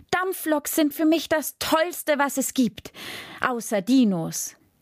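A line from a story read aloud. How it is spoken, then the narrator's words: Calling out. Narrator (German): rief Jascha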